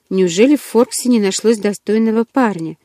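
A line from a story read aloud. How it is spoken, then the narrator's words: Calm but suspicious. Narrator (Russian): Чарли говорил спокойно, однако в его голосе звучало подозрение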